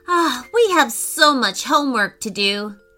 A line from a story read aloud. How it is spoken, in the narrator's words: sighed Declan